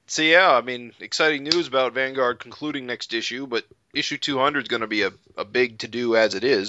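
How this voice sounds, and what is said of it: Usual voice. Nothing is said of it.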